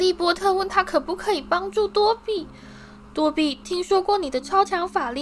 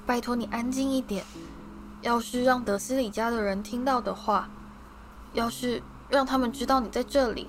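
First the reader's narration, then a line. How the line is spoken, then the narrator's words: Panicked whisper. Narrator (Chinese): 哈利慌乱的低声说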